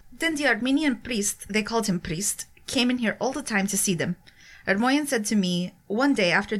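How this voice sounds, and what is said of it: Reads aloud in a put-on accent. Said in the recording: “Best accent of the show so far.”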